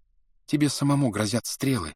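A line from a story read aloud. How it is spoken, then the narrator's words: Quiet trembling voice. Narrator (Russian): сказала тихим дрожащим голосом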